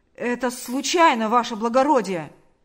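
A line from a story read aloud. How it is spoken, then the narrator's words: Shouted. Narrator (Russian): закричал он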